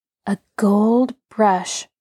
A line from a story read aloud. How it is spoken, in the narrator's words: Rosie said in an odd tone